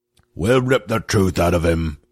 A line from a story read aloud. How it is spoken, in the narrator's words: growled another druid